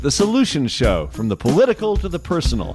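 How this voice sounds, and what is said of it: Polished radio announcer voice. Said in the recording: “That's your radio voice”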